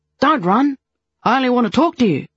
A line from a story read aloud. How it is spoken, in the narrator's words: the man called out